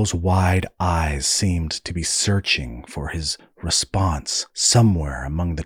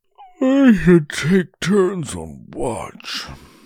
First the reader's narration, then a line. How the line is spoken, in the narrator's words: Darl said through a yawn